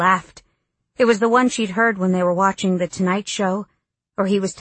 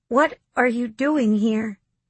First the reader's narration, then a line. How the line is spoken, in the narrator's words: Dylan tried to keep her voice from shaking